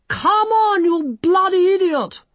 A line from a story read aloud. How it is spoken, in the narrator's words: A furious vision in padded leather, gauntlets, tiara, and 30 yards of damp pink tulle leant down towards him and screamed